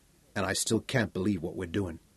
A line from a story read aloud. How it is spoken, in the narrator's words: Sally Ann murmured